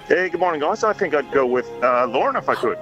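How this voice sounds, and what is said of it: Hint of a Canadian accent. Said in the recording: “I didn't understand a word of that ... where's your accent from? ... born and bred in Canada ... It's a hint of Canada.”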